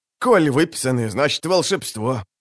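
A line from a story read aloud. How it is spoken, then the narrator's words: Terrified mutter, chattering teeth. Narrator (Russian): пробормотал Спиорл, от ужаса звеня зубами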